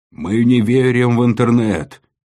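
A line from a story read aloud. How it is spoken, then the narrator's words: Howling chorus. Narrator (Russian): взвыли шапки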